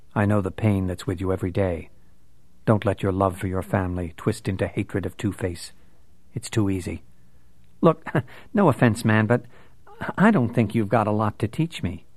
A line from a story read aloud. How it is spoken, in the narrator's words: In a very mild tone, Bruce said